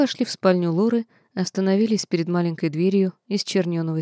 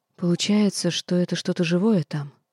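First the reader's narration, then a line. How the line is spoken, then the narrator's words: Whisper. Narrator (Russian): почему-то шепотом продолжила я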